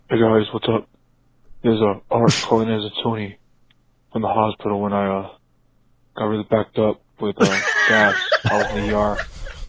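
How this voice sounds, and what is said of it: Stuffed-up nasal impersonation. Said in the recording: “I feel like ... doing a white accent ... he's doing an impersonation ... your ass is stuffed up ... You probably did sound like that ... It's accurate”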